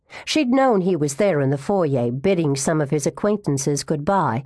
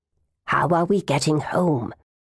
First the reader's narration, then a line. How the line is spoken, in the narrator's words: Sadie whispered